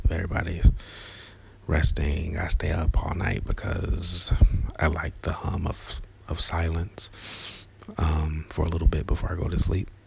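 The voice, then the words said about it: Whispering. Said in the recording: “I'm still going to whisper”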